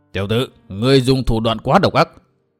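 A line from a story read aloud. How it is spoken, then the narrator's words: Icy cold. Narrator (Vietnamese): giọng nói lạnh lùng như băng tuyết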